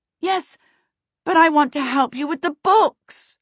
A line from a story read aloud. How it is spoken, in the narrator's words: Charmaine cried out